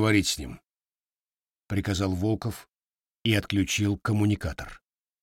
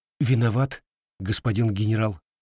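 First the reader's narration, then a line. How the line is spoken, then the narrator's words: Frightened babbling official. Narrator (Russian): испуганно пролепетал чиновник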